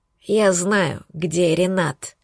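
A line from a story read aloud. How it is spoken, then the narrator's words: Old man's exhausted whisper. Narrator (Russian): прошептал дед обессиленно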